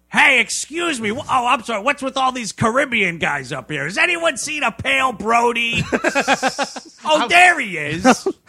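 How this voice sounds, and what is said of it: Comedic gruff shark character voice. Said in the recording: “doing the shark voice ... They make him kind of like Danny DeVito.”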